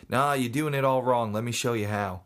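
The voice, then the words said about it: Thick Australian accent. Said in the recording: “I think he was Australian, had a really thick accent.”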